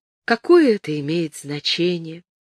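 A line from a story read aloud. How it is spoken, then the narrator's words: Soft, smiling, woman. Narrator (Russian): мягко сказала она, улыбаясь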